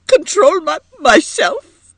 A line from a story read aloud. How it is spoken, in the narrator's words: exclaimed Edith brokenly